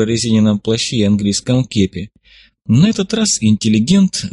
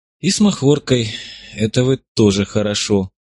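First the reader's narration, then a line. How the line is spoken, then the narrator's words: Hoarse rasp, then a sob. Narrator (Russian): прохрипела Зотова и внезапно всхлипнула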